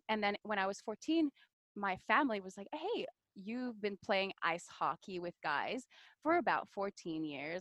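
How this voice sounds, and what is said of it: French Canadian accent. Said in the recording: “This accent that you hear is because I'm French Canadian. I didn't speak English until I was about 14, 15.”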